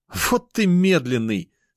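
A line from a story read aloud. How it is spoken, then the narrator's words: Laughing sister. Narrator (Russian): смеялась сестра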